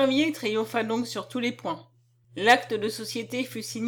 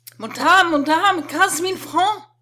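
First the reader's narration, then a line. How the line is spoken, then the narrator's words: Shouted. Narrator (French): cria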